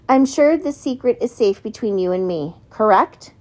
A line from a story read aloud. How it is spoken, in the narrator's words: Connor chuckled and then added